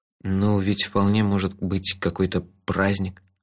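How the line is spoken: Timid. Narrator (Russian): робко заметил мой здравый смысл

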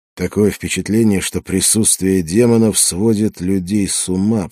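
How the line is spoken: Mumbling. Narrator (Russian): пробормотал я

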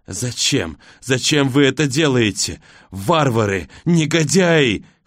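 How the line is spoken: Old man wheezing. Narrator (Russian): хрипит старик

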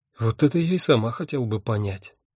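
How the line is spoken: Sighing. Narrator (Russian): вздохнула Афина

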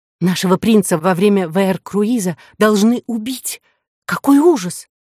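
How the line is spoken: Loud whisper, young woman. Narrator (Russian): громко прошептала девица

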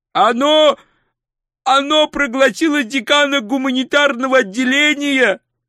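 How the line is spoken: Shouting. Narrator (Russian): прокричал он

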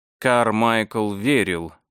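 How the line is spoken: Tired, detached voice. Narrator (Russian): заговорил он усталым, отрешенным голосом

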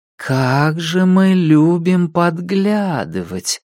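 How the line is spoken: Drawl. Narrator (Russian): протянула Кларк

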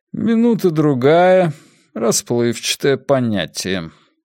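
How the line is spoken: Even, level voice. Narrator (Russian): Ровным голосом Уоргрейв произнес

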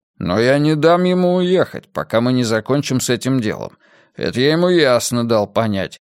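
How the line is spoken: Grumble. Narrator (Russian): проворчал Мунк

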